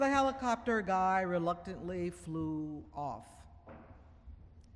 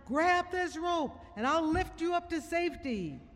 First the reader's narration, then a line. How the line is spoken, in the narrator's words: the pilot shouted down